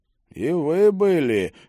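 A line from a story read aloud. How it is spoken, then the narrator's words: Muffled reply. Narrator (Russian): глухо ответил лорд Рован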